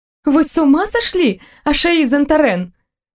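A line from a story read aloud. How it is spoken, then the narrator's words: Exclamation after regaining voice. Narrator (Russian): воскликнула я, когда возможность говорить вернулась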